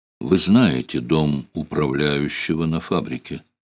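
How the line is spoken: Quiet. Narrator (Russian): тихо сказал

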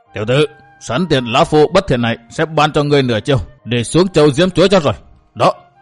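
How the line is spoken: Harsh, menacing old voice. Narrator (Vietnamese): Dứt chuỗi cười, lão ác ma gằn giọng

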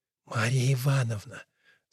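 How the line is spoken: Whispering. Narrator (Russian): Сашка шептал

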